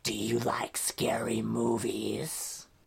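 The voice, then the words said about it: Horror movie villain voice. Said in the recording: “doing the scream voice”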